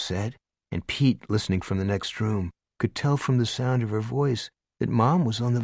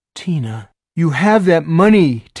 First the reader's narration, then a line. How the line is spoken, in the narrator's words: Tina cried